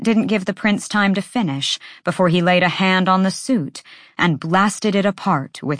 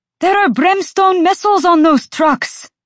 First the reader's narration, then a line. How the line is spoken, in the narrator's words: Cormac roared